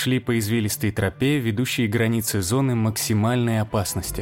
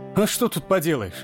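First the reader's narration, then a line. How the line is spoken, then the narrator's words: Laughing. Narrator (Russian): Александр рассмеялся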